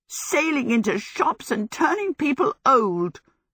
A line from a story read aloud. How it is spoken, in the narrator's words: she exclaimed